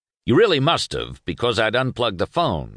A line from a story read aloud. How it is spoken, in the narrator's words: he lied in a confident, authoritative voice